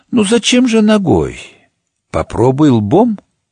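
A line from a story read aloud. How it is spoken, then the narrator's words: Calm, muffled through door. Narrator (Russian): из-за двери было спокойно заявлено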